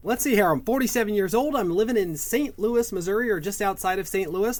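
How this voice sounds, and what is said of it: American accent. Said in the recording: “they can pick up on your American accent”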